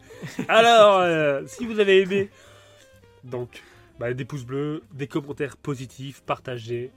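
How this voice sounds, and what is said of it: Smooth, suave voice. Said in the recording (French): “Avec la voix complètement suave”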